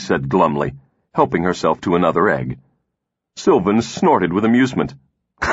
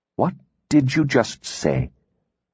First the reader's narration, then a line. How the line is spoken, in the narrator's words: He asked softly